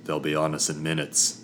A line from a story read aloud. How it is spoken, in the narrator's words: Doran grunted